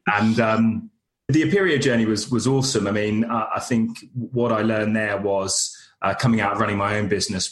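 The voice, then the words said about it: Monotone British accent. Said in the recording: “my monotone British accent”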